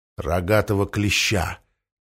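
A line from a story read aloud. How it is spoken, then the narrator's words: Quiet reply. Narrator (Russian): тихо ответил Галилей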